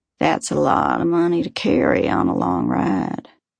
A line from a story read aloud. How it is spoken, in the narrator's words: She drawls out